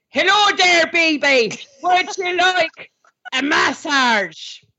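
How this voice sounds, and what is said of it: Put-on Irish accent. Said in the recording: “I'm auditioning as a male Irish masseuse”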